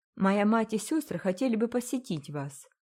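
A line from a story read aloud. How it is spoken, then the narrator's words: Calm. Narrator (Russian): продолжил Рой спокойно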